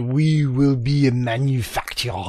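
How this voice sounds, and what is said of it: Terrible put-on French accent. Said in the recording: “Just my attempt at a French accent. ... No, it was terrible.”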